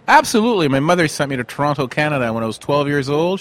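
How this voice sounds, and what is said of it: Canadian English accent. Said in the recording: “a fantastic Canadian accent”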